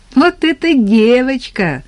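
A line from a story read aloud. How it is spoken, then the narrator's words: Laughing. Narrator (Russian): засмеялась Тата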